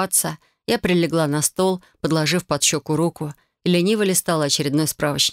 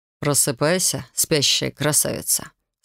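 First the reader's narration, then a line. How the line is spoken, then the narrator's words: Drawled. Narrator (Russian): протянул Рион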